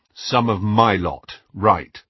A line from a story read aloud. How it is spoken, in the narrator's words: said Harry